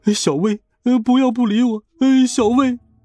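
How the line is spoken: Crying. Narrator (Chinese): 他哭着说

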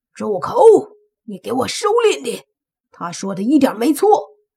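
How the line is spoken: Angry roar. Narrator (Chinese): 食色鬼，他一来便对那年轻男子大吼道

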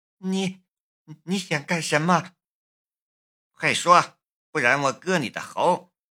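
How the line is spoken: Trembling fearful voice. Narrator (Chinese): 柳英的冷汗从额头上冒了出来，他颤声说道

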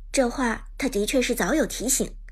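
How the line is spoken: Deep, grave voice. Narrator (Chinese): 娜可露露沉声说道

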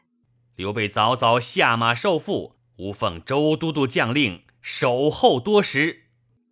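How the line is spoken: Stern loud shout. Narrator (Chinese): 当先两员大将厉声高叫曰

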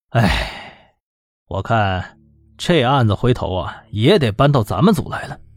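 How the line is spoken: Sighing. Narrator (Chinese): 李明耀叹了一口气，说道

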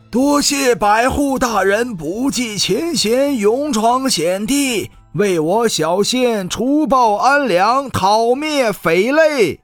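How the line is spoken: Loud group shout. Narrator (Chinese): 县城主簿和县里几个举人大声喊道

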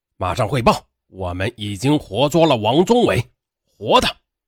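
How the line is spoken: Loud command. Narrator (Chinese): 杨厅长大声指示

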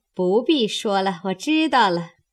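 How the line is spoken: Sinister laugh. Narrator (Chinese): 凤姐阴笑指道

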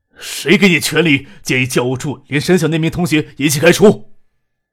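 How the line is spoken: Angry, grim. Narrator (Chinese): 崔国恒说这句话时，脸色还阴着，怒目瞪着魏东强

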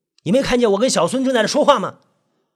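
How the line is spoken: Mildly annoyed. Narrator (Chinese): 文经理有点恼怒

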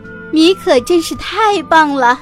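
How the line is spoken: Excited cheering. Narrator (Chinese): 大壮兴奋地 欢呼着

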